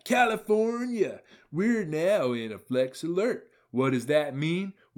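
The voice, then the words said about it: Imitates another person's voice. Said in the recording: “in my best Gavin Newsom voice.”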